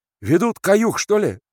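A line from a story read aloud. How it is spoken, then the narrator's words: Shouted. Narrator (Russian): крикнул Лука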